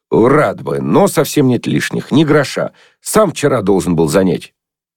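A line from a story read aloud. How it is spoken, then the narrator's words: No longer carefree. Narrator (Russian): сказал уже не тем беспечным тоном, как раньше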